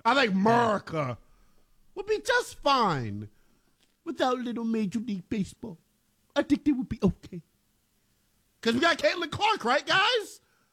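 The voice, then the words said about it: Imitates another person's voice. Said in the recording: “Is that a Cosby impression? ... That was a Bill Cosby impersonation.”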